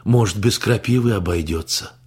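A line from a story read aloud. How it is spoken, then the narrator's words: Hopeful sigh. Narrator (Russian): Венсан вздохнул с надеждой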